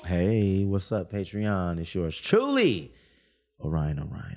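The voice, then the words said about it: Smooth radio announcer voice. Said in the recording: “You working on your radio voice? ... Yes.”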